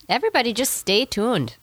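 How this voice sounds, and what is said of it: Strong Minnesota accent. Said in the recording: “your Minnesota accent right there. You sounded like you were in the movie Fargo there... I heard it bad... That was bad in a good way”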